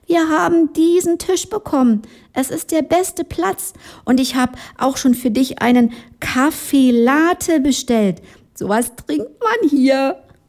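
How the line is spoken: Whispered. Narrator (German): Sie flüsterte jetzt

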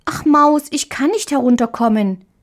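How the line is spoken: Little girl calling down. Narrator (German): rief die kleine Marie, als sie vom Rande des Bettes in die Tiefe sah

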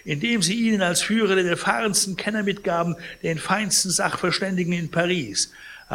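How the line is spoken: Indignant exclamation. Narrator (German): rief Pons empört

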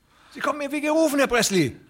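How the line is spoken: Calling out. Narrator (German): rief der andere

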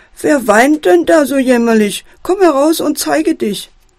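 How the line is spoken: Loud call. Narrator (German): ruft der Fuchs laut

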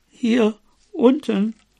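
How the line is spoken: Quiet answer. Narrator (German): antwortete Bobo leise

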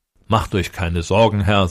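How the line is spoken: Plain. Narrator (German): sagte der Großäugige

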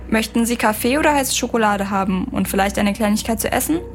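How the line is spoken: Plain. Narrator (German): fragte er

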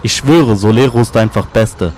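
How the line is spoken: Plain. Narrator (German): sagte der eine

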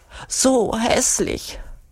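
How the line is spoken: Whining. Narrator (German): jammert Urugulla

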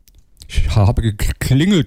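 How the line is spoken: Stammering. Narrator (German): stotterte der Spanner

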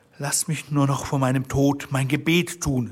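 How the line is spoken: Plain. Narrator (German): sagte sie

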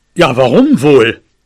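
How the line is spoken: Father's growl. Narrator (German): knurrte mein Vater zurück

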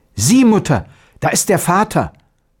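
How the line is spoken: Exclaiming boy. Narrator (German): Der Knabe rief aus

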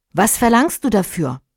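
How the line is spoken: Plain question. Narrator (German): fragte die Prinzessin

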